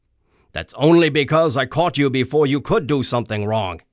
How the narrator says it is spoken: growled the officer

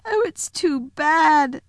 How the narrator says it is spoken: sobbed Lucy

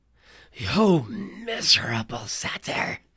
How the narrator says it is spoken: She snarled

